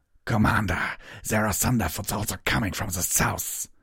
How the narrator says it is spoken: One Woven howled

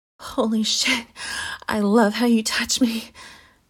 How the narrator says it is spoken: she said before biting my earlobe to quiet her moans

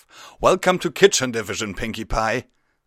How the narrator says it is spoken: called out

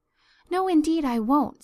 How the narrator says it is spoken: said eagerly

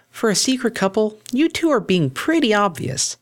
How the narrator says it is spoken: a familiar voice piped up from nearby

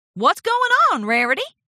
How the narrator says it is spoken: Applejack shouted from the water

